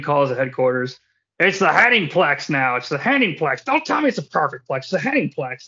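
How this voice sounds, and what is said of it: Poor Curt Hennig impression. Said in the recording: “That's a really shitty Curt Hennig impression”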